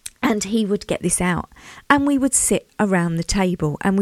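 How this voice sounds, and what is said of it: Usual voice. Nothing is said of it.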